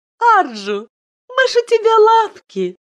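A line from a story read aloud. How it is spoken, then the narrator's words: Giggle. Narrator (Russian): Айлин хихикнула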